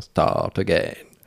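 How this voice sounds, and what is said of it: Guttural voice with Indian accent. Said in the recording (French): “avec une voix très gutturale et avec son accent indien.”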